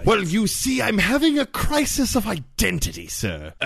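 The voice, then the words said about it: Put-on British accent. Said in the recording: “I wasn't starting with the British accent, but now I've found it!”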